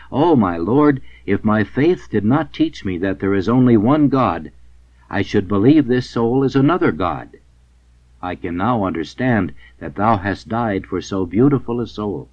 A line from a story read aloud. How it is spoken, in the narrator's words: She found it so beautiful that she exclaimed